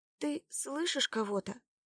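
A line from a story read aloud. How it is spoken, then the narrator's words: Quiet question. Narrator (Russian): спросила Лада тихо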